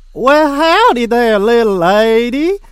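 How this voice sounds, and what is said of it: Put-on Southern accent. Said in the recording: “I speak Southern ... what a lovely accent you have”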